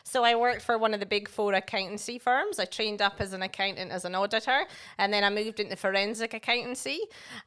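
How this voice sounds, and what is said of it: Scottish accent. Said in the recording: “I am originally a chartered accountant from Scotland, hence the accent.”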